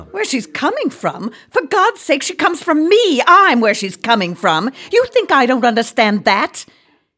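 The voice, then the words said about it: Raised, loud angry voice. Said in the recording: “I didn't mean to raise my voice.”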